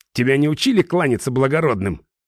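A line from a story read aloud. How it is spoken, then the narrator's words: Angry question. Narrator (Russian): зло спросил он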